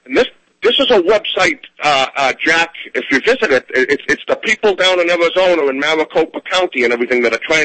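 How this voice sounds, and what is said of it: Boston accent. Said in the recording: “I say that with my Boston accent”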